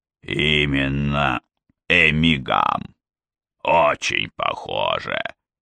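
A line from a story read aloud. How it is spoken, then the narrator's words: Growled. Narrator (Russian): прорычал он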